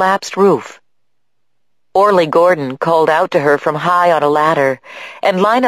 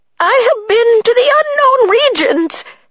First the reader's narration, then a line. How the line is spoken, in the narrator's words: he cried